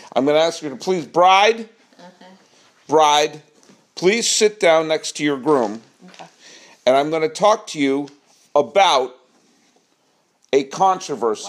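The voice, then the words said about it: Loud, projecting voice. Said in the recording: “Why are you yelling? ... Because I'm projecting. I'm performing.”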